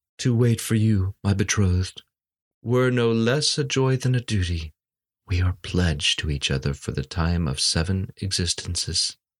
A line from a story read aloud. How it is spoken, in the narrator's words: Eager to soothe her dying moments, he answered tenderly